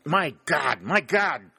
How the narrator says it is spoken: cried the colonel

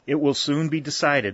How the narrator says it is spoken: said Shepard, his voice trembled

